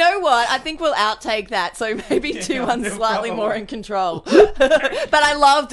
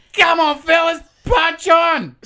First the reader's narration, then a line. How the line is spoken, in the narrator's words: Rossini probably coked off his tits and juiced up on strawberry milkshakes, yelled to the trio from the car